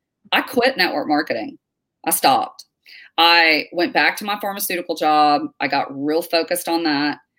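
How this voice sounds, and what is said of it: Fast-talking Texan accent. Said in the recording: “You are the fastest talking Texan I've ever met.”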